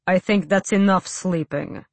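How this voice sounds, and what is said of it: Deep character voice. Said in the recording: “said a deep voice.”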